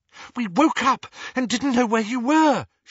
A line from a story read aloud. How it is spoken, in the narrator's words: she said breathlessly